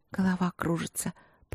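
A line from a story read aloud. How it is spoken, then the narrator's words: Relaxed mumble. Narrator (Russian): пробормотала принцесса расслабленно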